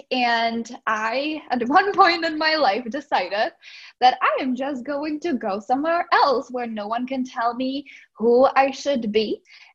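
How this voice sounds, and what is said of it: Slight Czech accent. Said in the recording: “I'm originally from the Czech Republic. So that's why I have a little bit of an accent.”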